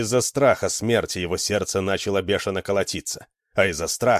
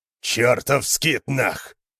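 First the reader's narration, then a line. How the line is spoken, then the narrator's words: Roar. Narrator (Russian): взревел Йорин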